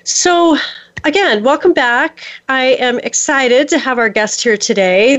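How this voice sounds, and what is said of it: Strained, failing voice. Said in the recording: “I'm going to do my best to not lose my voice. It's been on the verge of leaving me today”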